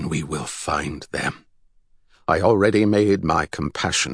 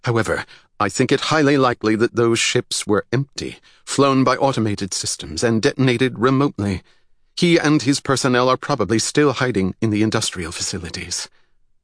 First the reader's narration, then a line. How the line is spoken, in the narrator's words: Gilbertus quickly added